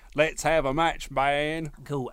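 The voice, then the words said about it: Imitates another person's voice. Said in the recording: “terrible impression ... you're going to do a proper Jeff Hardy voice”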